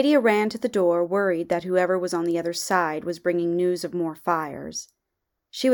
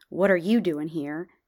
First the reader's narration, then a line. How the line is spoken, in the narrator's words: regain her cold composure and mutter a curt